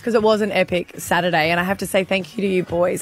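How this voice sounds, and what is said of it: Rusty, hoarse voice. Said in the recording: “I'm a little bit rusty this morning, losing my voice”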